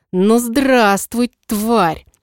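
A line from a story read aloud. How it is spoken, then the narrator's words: Furious hiss. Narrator (Russian): Прошипел с красным от ярости лицом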